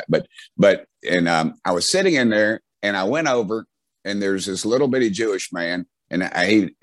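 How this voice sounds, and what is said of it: Strong rural Southern US accent. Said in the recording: “that old redneck Southern accent I've got”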